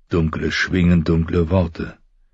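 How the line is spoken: Murmured. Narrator (German): murmelte Ned

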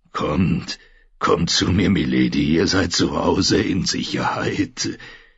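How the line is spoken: Gruff but friendly. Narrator (German): sagte mit seiner knurrigen, freundlichen Stimme

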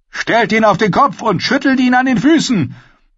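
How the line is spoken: Another voice calling out. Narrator (German): Eine andere Stimme rief

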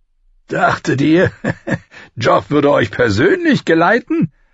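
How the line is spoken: Laughing. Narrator (German): Er lachte

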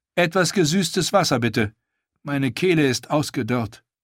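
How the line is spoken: Calling out. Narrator (German): rief sie

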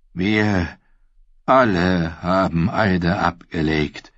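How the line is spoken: Deeply sad reply. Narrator (German): erwiderte Sir Arthur Dayne entsetzlich traurig

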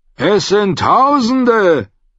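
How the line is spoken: Called out. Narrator (German): rief jemand hinter Chet

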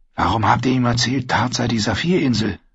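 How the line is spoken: Whispered. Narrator (German): flüsterte Brienne, nachdem Oswig außer Hörweite war

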